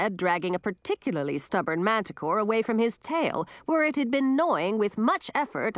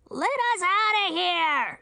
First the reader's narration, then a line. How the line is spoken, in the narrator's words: shouted a voice from inside the box